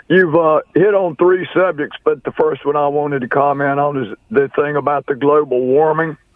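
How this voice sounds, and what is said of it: Hoarse voice. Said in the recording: “Forgive me. I'm a little hoarse.”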